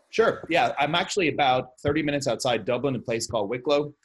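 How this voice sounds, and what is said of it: Irish accent. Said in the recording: “if people didn't detect your accent or the fact that you mentioned Ireland”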